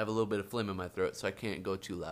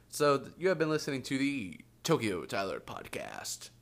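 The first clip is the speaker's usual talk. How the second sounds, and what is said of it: Announcer-style radio voice. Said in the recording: “radio voice”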